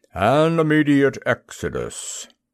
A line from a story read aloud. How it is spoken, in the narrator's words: said the motor in a grumbling voice